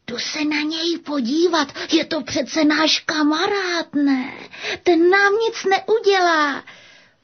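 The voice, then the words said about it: Whispering. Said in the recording (Czech): “zašeptal.”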